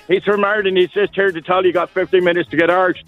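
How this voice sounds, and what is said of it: Put-on Irish accent. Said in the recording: “That's my Irish accent... That's right, really good... Oh, that was so good”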